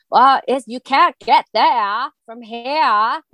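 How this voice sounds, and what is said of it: Exaggerated Maine accent. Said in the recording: “time in Maine, but when actors try to exaggerate the accent”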